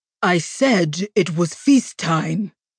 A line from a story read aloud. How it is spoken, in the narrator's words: he growled